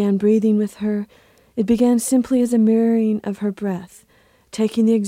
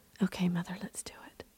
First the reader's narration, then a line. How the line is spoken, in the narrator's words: whispered